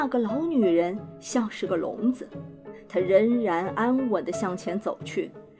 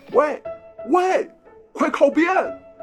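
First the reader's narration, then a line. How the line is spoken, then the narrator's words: Desperate straining shout. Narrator (Chinese): 她没有力量把马勒停，只得使劲开始叫唤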